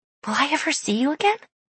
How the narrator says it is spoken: She whispered

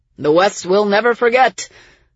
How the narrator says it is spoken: the people yelled as they died

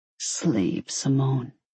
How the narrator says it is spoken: he urged softly

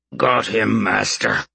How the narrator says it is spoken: Tiny grunted

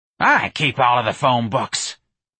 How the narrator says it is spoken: Miss Trixie snapped

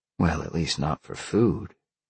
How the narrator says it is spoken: Sean whispered

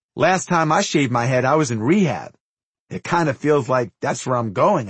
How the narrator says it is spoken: I said

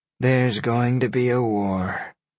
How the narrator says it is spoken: Deanna sighed

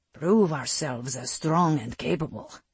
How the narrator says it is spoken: his wolf rumbled in his mind

